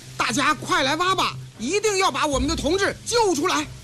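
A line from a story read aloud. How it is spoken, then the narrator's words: Loud rallying call. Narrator (Chinese): 周恩来……大声招呼人们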